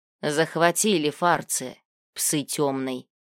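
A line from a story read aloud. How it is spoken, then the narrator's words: Man cursing. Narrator (Russian): выругался мужик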